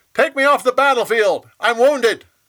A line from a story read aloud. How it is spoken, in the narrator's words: He yelled